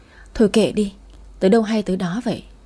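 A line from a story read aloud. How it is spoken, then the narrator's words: Sighing. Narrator (Vietnamese): Tôi thở dài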